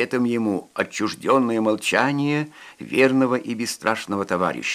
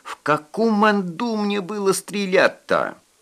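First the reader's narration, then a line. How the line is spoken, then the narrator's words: Sudden shriek. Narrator (Russian): Вдруг взвился до визгу Финифатьев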